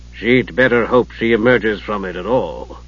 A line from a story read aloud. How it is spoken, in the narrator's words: Dalimar said dryly